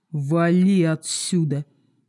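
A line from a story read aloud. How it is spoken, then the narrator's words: Grim command. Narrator (Russian): мрачно скомандовал некромант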